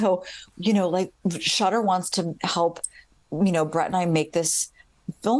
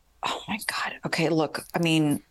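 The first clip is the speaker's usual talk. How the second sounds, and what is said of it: Whispering. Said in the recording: “I don't know why I'm whispering”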